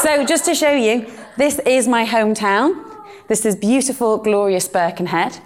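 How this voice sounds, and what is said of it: Northern British accent. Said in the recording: “my absolutely terrible British Northern accent”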